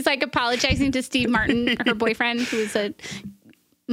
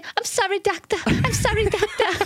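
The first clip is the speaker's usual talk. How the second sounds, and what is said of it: Squeaky, raspy imitated female voice. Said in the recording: “Like squeaky little raspy voice.”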